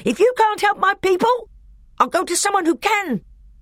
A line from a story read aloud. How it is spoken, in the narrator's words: said Nikobrick, whose voice now rose to a scream